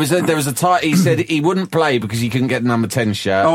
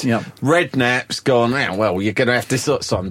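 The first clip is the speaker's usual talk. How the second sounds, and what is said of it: Cockney-style imitation of another person. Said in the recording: “doing my Brooking voice again. I'm racist about Cockneys now as well. They all sound the same.”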